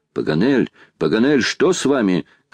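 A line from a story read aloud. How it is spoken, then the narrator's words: Shout. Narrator (Russian): крикнул Гленарван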